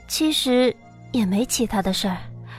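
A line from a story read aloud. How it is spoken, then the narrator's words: Flat, indifferent. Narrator (Chinese): 淡淡的道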